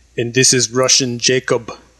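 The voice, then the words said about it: Put-on Russian accent. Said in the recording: “As you can tell from my Russian accent, it's about as good as some of the actors in this, but doing my best.”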